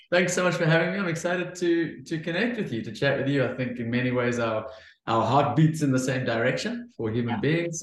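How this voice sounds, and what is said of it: South African accent. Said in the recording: “people who might pick up on your accent might pick up on the fact that you're dialing in from Cape Town”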